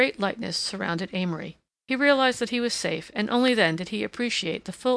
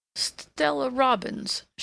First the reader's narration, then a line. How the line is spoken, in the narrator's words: she faltered finally